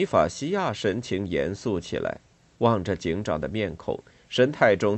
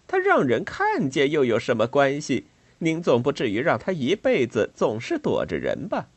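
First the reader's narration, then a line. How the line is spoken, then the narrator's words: Cheerful, smiling. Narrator (Chinese): 拉利达在窗子里笑嘻嘻的说道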